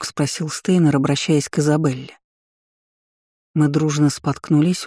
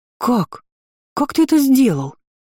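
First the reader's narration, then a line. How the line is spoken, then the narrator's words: Emotional exclamation. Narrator (Russian): воскликнула более эмоциональная Иза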